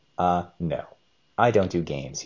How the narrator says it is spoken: he said

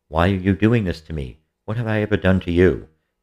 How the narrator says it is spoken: Eastwolf cried out

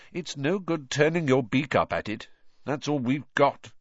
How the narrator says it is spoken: said Harry grimly

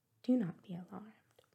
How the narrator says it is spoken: said Miss Dashwood

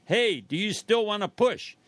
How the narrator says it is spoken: shouts

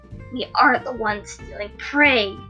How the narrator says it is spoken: he hissed

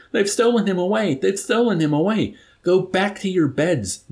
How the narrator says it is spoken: Nurse Duckett pleaded with Dunbar and Yusarian, pushing feebly against Yusarian's chest

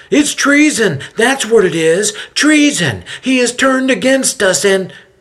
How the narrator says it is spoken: a high-pitched nasally voice yells out

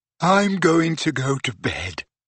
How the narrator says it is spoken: yawned Ginny

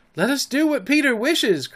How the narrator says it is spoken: cried the simple boys

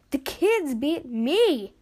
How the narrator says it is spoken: Ash laughed, barely

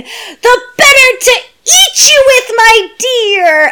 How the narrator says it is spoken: the little girl just screams the line

